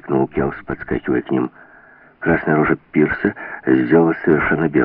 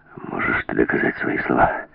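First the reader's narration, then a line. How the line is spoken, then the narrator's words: Quiet, measured question. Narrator (Russian): Тихо и размеренно спросил Клев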